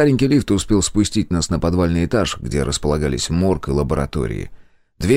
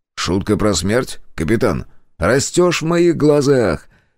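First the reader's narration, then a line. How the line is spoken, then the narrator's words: Approving grunt. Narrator (Russian): Я одобрительно хмыкнул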